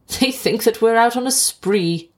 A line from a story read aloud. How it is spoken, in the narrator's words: he laughed